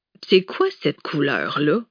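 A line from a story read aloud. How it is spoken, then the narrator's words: Grumbling. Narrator (French): grogna pourtant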